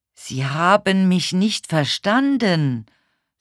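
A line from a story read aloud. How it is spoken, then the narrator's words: Very loud and slow. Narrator (German): sagte sehr laut und sehr langsam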